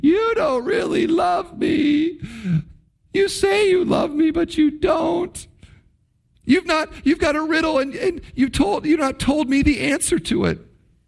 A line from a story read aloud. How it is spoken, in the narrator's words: she sobs to Samson